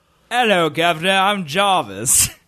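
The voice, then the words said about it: Put-on British accent, character impression. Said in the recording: “Let's hear your British accent. Let's hear your Jarvis impression.”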